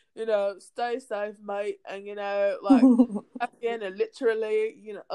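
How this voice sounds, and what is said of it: Put-on British accent. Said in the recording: “I'm done with my British accent.”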